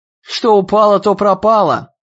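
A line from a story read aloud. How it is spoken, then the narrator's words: Loud shout. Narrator (Russian): прокричал Иэн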